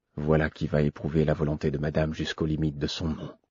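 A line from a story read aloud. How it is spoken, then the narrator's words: Half-voiced. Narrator (French): dit à mi-voix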